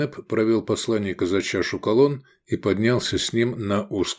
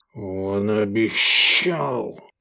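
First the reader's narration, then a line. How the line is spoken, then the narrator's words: Hissing envoy. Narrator (Russian): прошипел посланник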